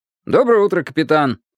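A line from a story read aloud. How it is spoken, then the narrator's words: Cheerful. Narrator (Russian): бодро произнес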